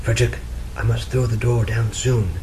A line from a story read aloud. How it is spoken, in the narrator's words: she whispered